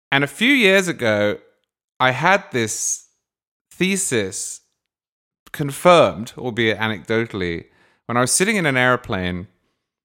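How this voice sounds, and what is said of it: Clearly foreign accent. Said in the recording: “my accent very clearly marks me out as being foreign, and still does. I haven't lost my accent.”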